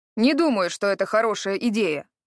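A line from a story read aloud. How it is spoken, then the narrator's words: Stern. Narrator (Russian): строго заметил Харрод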